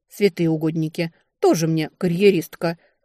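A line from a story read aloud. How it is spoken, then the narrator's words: Snorting. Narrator (Russian): хмыкнула Фэйр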